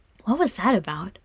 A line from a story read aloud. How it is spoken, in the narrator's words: Frerin whispered